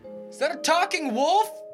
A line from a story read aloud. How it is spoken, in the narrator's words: yell down